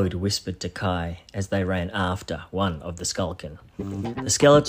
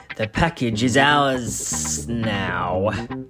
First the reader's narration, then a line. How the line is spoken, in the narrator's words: the serpentine hissed